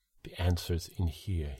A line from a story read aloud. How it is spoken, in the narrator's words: he said